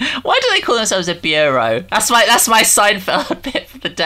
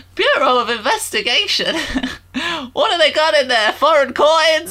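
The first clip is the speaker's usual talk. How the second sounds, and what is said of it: Jerry Seinfeld impression. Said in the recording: “that's my Seinfeld impression”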